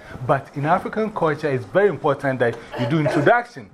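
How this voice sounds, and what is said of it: African accent. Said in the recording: “what shows that I'm from Africa? ... My accent”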